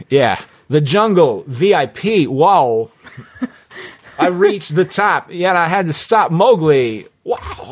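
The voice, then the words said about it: Christopher Walken impression. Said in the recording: “doing the Christopher Walken ... That's a really good impression”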